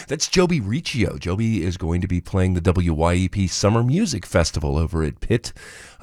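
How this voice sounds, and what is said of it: Hoarse, raspy voice. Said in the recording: “A little laryngitis this morning, so bear with me.”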